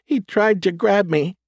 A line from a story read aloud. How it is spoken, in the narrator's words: she sobbed